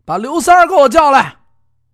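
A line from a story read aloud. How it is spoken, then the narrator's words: Calling out. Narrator (Chinese): 这家人喊了一声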